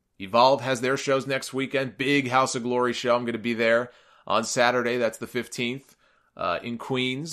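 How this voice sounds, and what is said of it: Worn-out, strained, fading voice. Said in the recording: “my voice is going here ... It's like raw. It's a natural decline. As these almost 3 hours go on ... my poor voice suffers the longer we go on”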